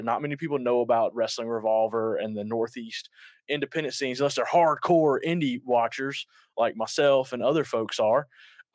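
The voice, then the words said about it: Southern US Georgia accent. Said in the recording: “I'm based out of the South in Georgia. If you can't mm-hmm. tell from my accent, we are based out of Georgia.”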